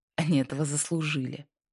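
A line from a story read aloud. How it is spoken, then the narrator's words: Smug snort. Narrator (Russian): Хмыкнул другой, наслаждаясь моментом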